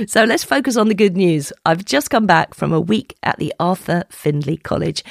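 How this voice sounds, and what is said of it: Croaky voice. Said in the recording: “my voice sounds a little croaky”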